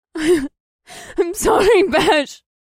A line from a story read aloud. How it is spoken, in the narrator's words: Mahini wailed, and her entire body shook as her tears overpowered her